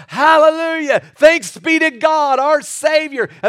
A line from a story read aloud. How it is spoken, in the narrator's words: They would start shouting